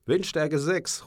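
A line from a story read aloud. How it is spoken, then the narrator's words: Captain calling out. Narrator (German): ruft der Kapitän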